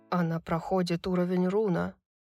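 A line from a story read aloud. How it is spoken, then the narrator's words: Disbelieving whisper. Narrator (Russian): прошептал Деклан, не веря своим глазам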